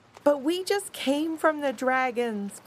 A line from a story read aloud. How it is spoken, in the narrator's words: cried Tuffy